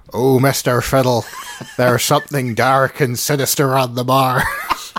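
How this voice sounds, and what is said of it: Attempted West Midlands accent. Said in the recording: “I attempt a West Midlands accent ... You sound like Nanny off Count Duckula if you octaves higher.”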